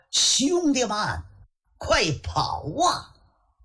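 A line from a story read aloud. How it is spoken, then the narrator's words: Shouting. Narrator (Chinese): 熊阔海心说不好，嘴里喊着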